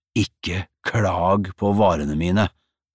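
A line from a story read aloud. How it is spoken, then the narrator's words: Snarled. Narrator (Norwegian): snerret Osvald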